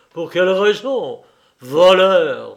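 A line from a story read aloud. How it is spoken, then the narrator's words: Disgusted exclamation. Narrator (French): s'écria-t-il, avec un dégoût visible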